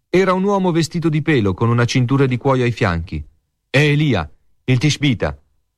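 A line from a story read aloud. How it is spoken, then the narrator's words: King exclaiming. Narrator (Italian): esclamò il re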